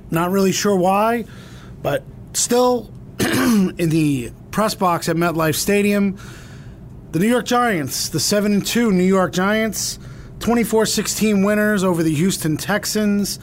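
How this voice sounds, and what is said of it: Slightly raspy voice. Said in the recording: “I am a little raspy right now.”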